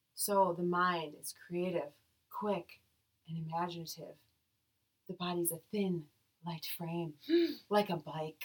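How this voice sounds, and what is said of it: Airy, calm yoga-instructor voice. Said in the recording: “in my airy yoga voice”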